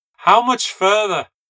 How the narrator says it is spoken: yelled

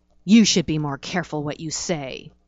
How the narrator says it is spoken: he growled

